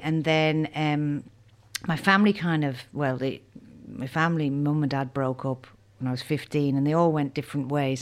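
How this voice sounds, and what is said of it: Irish accent. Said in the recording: “And you from Ireland? ... And you still got the accent.”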